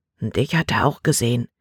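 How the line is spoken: Quiet warning. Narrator (German): warnte Caleb mit leiser Stimme

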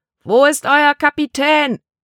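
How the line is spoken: Big man bellowing. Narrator (German): brüllte der große Mann

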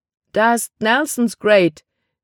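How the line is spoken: Exclaiming. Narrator (German): rief er aus

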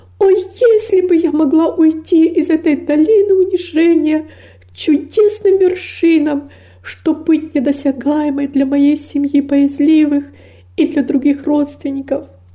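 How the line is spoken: Anguished exclamation. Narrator (Russian): воскликнула с невыразимой тоской

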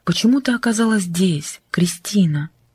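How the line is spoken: Whispering. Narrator (Russian): шептала она

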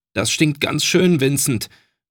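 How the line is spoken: Groaning. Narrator (German): stöhnte er zu seinem Bruder hinüber, als der starke Geruch des Rauchs in ihr kleines Schlafzimmer zog

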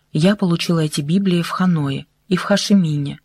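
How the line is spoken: Plain. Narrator (Russian): ответила Майя

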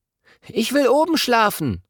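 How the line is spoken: Excited call. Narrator (German): ruft er begeistert

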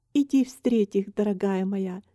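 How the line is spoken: Plain. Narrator (Russian): сказала мама

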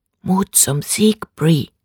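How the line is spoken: Soft answer. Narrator (German): antwortete sie leise

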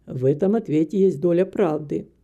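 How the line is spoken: Calm stranger's reply. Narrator (Russian): спокойно ответил незнакомец

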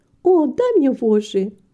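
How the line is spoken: Exclamation. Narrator (Russian): воскликнула Рита

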